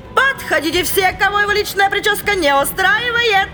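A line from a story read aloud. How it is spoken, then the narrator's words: Cheerful shout. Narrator (Russian): Весело крикнула она в зал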